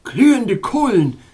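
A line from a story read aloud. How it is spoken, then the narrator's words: Cold royal exclaiming. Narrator (German): rief seine frigide Majestät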